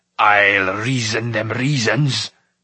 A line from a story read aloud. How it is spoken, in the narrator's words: bellowed Smoit